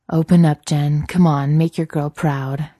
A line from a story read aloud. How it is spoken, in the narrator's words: Jared purrs